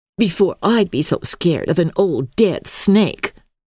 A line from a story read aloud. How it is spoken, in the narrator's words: scoffed Black Eyes